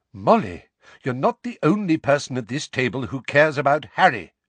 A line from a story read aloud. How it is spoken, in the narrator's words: said Lupin sharply